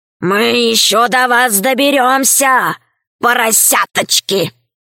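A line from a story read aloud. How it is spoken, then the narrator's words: Hoarse growling wolf. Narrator (Russian): Волки оскалились, рычали, Один из них хрипло сказал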